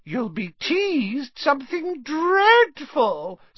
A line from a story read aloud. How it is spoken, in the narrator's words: said Myrtle happily